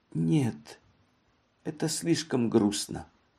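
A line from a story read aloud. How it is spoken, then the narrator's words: Whisper. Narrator (Russian): она прошептала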